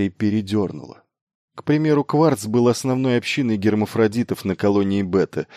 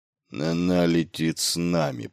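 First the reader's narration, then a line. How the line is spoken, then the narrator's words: Grumbling. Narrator (Russian): проворчал Батари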